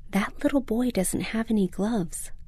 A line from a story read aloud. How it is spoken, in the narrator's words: Mom whispered